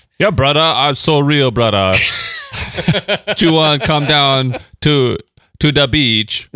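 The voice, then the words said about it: Put-on Jamaican accent, not convincing. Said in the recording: “your accent, it's not even capturing it ... That's actually Jamaican.”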